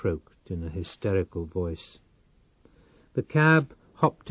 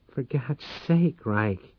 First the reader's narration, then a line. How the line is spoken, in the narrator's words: she exclaimed